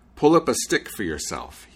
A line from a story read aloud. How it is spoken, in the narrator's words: he said